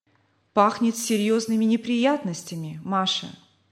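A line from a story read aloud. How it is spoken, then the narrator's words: Weary. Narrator (Russian): сказал он жене, устало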